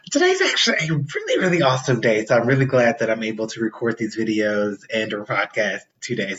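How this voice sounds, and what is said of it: Excited, upbeat speaking voice. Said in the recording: “can hear the excitement in my voice.”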